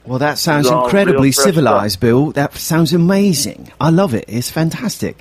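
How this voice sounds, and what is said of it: Put-on British accent. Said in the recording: “I don't know why I'm talking in an accent ... I decided to start talking as a British person.”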